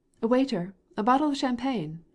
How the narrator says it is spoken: cried Stepan Arkadyevitch

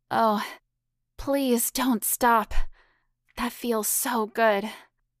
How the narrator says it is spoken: Hannah moaned out loud

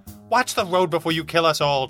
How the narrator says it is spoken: Trixie snapped

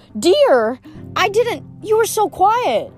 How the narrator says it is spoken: Grover yelped

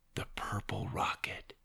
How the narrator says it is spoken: he whispered

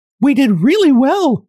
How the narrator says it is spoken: cried the fairy in a pleased voice

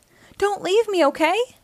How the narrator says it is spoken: cried

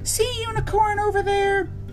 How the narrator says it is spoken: Rolly shouts

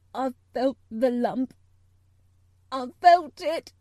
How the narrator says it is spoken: choked out Colin

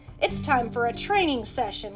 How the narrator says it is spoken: Leo exclaimed

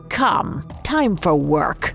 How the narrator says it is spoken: The old man snarled the words

